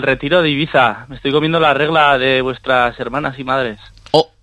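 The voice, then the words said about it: Basque or Navarrese Spanish accent. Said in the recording (Spanish): “Tiene un acento más vasco para ser de Ibiza ... Pues tienes acento navarrico tú.”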